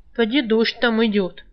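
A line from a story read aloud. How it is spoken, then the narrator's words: Gloomy. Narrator (Russian): уныло сказал Калай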